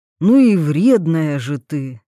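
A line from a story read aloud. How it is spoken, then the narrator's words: Sighing. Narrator (Russian): вздохнул парень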